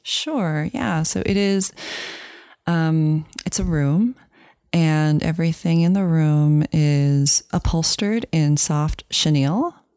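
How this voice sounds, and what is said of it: Soft, hushed ASMR-style voice. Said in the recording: “Your voice suddenly became an ASMR voice when you're describing your work.”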